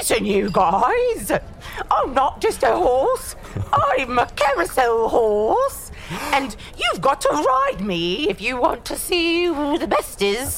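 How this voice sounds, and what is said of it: Silly horse character voice. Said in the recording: “should I do a horse voice? ... do a horse voice”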